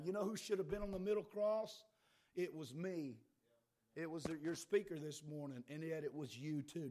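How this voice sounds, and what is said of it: Slightly hoarse, strained voice. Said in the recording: “my voice is bad. You know, I'm losing my voice too a little bit”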